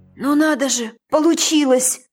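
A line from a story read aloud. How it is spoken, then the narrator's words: Hoarse rasp. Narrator (Russian): прохрипела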